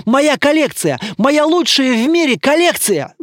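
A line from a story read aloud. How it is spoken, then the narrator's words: Wailing. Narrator (Russian): завопил Дмитрий Константинович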